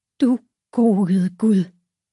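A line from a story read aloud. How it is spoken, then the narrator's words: Gasping. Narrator (Danish): Hun gispede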